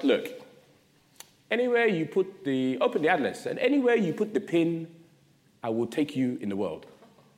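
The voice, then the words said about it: Very bad imitation of Ghanaian accent. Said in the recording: “my mum's from Ghana ... I do a very bad impression of her accent”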